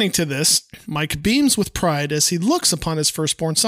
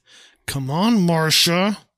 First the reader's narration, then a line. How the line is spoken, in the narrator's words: looks at with an evil eye and says through his teeth